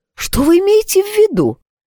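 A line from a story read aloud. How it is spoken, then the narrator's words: Exclaiming. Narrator (Russian): воскликнула Тора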